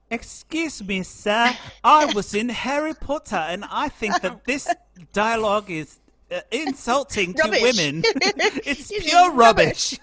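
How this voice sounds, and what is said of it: Put-on unconvincing British accent. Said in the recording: “It's almost as insulting as my accent ... when our accents sound like that”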